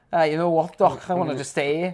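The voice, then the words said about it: Poor put-on Liverpudlian accent. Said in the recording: “my appalling Liverpudlian accent”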